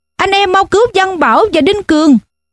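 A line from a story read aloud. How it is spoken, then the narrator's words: Loud shout. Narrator (Vietnamese): Thiên Tường hét lớn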